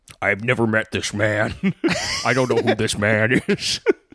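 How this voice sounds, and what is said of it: Imitates another person's voice. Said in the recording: “It's so hard to do his voice”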